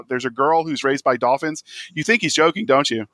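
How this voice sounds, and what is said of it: Mock scary voice. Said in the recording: “That's my best scary voice.”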